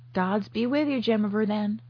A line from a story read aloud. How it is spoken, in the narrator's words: chuckled Mr